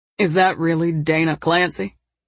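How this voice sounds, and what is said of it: Deep male character voice. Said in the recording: “a deep voice behind her asked”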